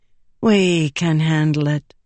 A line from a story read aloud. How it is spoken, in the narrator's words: the woman said smoothly